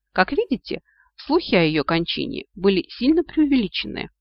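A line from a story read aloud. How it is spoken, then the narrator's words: Gleeful giggling. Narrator (Russian): радостно захихикал кот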